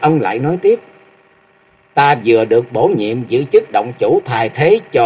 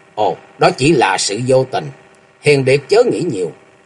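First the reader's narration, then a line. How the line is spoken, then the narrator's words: Kindly smiling old man. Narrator (Vietnamese): Lão mỉm cười hiền từ và nói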